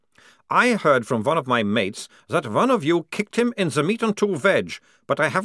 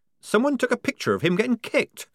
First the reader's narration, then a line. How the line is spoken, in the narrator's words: squeaked Polly, drenched in a sudden horror